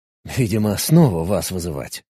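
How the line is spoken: Grumbled. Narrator (Russian): буркнул я

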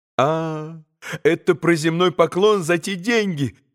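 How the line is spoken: Bitter laughing reply. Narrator (Russian): подхватила она, горько рассмеявшись

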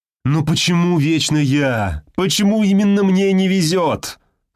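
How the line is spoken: Loud self-pitying moan. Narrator (Russian): стонал на весь офис несчастный Сергей, чувствуя себя обделенным Божьей милостью

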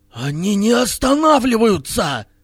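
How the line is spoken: Exclaiming. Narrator (Russian): воскликнул Хирилак

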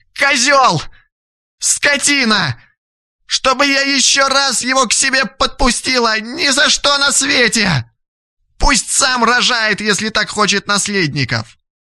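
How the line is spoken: Screaming in pain. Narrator (Russian): Вопила Лилия

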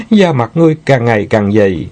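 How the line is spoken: Laughing. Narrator (Vietnamese): Sư Nương bật cười

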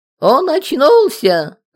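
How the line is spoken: Shrill theatrical squeal. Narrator (Russian): запищала экзальтированная девушка, будто изображая героиню театра Кабуки

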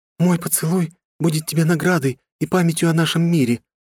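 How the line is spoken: Agitated, excited speech. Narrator (Russian): взволнованно сказала она

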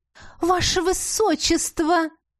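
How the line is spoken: Exclaimed in chorus. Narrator (Russian): хором воскликнули мачеха с Глорией

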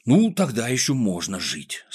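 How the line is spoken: Relieved sigh. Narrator (Russian): с облегчением вздохнул Пончик

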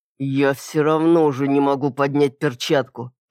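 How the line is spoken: Growled through teeth. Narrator (Russian): прорычал Стивен сквозь зубы

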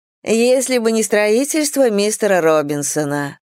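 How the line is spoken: Sighing. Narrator (Russian): вздохнула Силия

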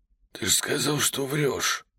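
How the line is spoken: Hoarse wheeze. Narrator (Russian): просипел я

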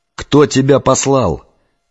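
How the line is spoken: Shouted. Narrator (Russian): закричал я

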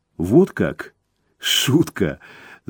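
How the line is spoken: Laughing. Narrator (Russian): засмеялась Рейка

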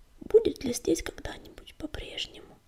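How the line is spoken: Barely audible whisper, sandstorm. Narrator (Russian): еле слышно прошептала за его плечом песчаная буря

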